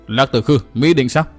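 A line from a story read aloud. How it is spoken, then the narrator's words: Loud shout, woman. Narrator (Vietnamese): Ma Âm Tiên Tử Phan Tiểu Nương quát một tiếng lớn, nói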